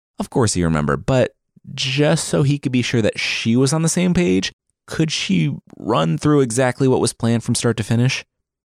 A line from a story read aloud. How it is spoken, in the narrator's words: Skald groaned and began